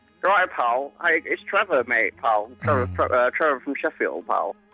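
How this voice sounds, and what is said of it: Unconvincing impersonation of a Sheffield caller. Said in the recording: “it's a Trevor impersonator. ... you don't sound like Trevor from Sheffield.”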